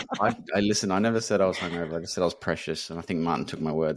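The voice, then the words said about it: Deeper than usual voice. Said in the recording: “my voice is a little bit deeper”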